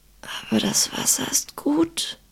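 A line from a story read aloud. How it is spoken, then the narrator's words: Hoarse whisper. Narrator (German): sagte er leise, wobei seine Stimme nicht mehr als ein heiseres Flüstern war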